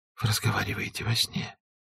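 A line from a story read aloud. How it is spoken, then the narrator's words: Whisper. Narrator (Russian): шепнула она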